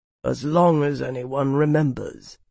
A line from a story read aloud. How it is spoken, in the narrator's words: Aldrich rumbled